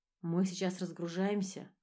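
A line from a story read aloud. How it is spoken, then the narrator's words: Plain. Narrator (Russian): ответил я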